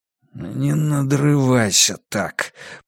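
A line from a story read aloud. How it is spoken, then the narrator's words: Hoarse croak. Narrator (Russian): прохрипел Драккайнен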